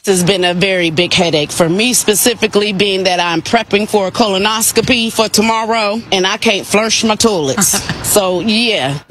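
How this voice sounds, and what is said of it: Woman's distinctive accent, strong attitude. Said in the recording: “I love her accent so much. ... And the attitude is strong.”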